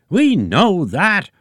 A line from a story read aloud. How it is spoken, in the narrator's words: roared Eggy Sr